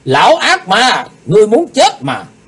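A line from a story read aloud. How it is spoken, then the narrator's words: Loud shout. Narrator (Vietnamese): Lạc Bá Đào hét lớn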